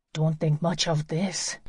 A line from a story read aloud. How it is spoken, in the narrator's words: Joey whispered